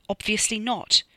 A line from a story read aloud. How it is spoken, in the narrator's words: Donno snapped over his shoulder